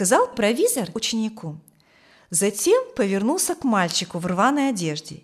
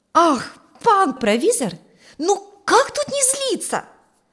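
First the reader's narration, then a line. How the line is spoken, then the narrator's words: Tearful exclamation, apprentice boy. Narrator (Russian): воскликнул чуть не плача ученик Ферка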